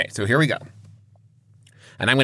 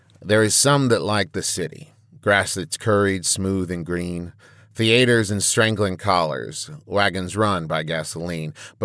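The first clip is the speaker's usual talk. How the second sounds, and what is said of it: Cowboy voice. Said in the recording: “I'm going to do it in a cowboy voice”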